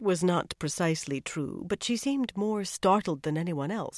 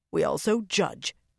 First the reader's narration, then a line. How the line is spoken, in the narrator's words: Delana snapped